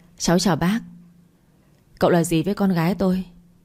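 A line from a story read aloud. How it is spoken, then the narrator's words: Smiling. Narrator (Vietnamese): Anh ta mỉm cười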